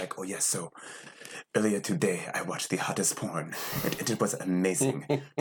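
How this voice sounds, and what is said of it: Put-on African accent. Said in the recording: “you just have to be in your African accent.”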